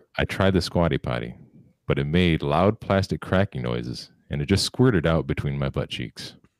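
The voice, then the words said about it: Mock-serious deadpan reading. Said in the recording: “I'm gonna say it in my most serious voice.”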